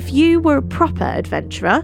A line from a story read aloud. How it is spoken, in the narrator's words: declared Mark, laughter in his voice